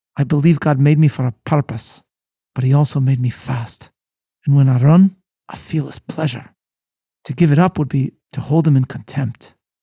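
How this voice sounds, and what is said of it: Put-on Scottish accent. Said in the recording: “again I'll do it in my much-celebrated Scottish accent.”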